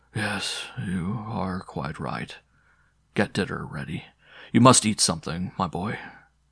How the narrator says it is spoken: the father, the tears again rising in his eyes, murmured

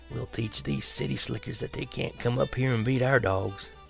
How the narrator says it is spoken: whispered

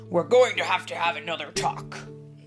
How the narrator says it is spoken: said Papa in his sternest voice

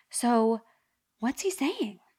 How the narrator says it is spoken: I said, completely earnestly

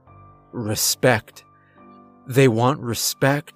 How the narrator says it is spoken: said in a groggy voice

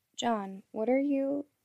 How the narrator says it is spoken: Her words were cut off by a gasp

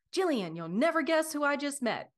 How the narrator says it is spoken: Sally exclaimed, her eyes sparkling with excitement

